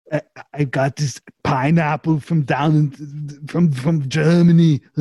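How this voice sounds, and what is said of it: Cartoonish put-on Austrian accent. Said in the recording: “My voice just sounds like a, for some reason, Austrian, and it sounds just like a cartoon Arnold.”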